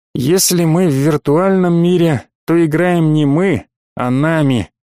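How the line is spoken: Mock-sad sigh. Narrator (Russian): наигранно огорченно вздохнул Слава Проф

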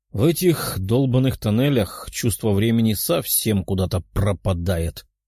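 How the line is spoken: Sighing. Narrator (Russian): вздохнул демон

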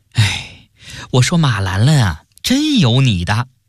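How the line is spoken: Long sigh. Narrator (Chinese): 领队姑娘一声长叹

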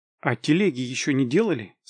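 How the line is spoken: Plain. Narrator (Russian): спросил я

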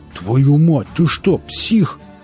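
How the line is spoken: Gruff growl. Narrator (Russian): прорычал бородатый сталкер

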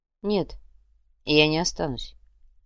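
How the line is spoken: Quiet reply. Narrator (Russian): негромко ответил Луминар

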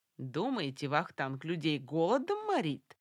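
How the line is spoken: Cheerful patter. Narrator (Russian): весело приговаривал грузин

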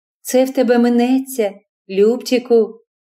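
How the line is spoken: Tender. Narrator (Ukrainian): Ніжно казала йому Фані

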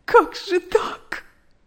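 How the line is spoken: Sobbing. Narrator (Russian): рыдала она

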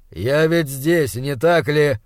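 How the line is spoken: Irritated reply. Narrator (Russian): раздраженно ответил Уортроп

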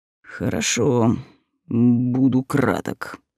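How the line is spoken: Count's gloomy agreement. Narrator (Russian): мрачно согласился граф

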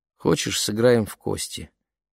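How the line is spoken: Listless question. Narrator (Russian): Вяло поинтересовалась Лени

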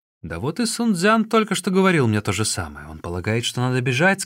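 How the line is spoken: Plain. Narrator (Russian): сказал Чао Гай

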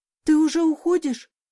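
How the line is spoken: Horrified exclamation. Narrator (Russian): с ужасом воскликнула

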